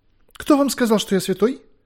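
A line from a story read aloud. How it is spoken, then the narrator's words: Frightened question. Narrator (Russian): испуганно спросил тот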